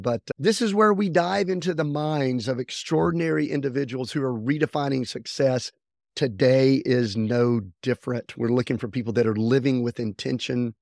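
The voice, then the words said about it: Slightly raspy voice. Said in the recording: “I've got a little raspy thing going”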